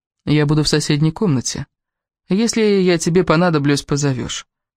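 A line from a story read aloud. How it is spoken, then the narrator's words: Calm but tense. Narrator (Russian): спокойно ответил Кевин, но Элис почувствовала, как он напряжен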